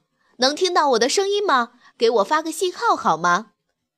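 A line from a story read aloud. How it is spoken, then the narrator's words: Loud shout. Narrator (Chinese): 消防队的队长冲着箱子大声喊道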